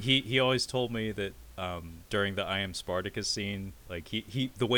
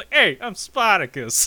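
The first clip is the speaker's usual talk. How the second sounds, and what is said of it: Put-on Brooklyn accent. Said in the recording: “has like a Brooklyn accent.”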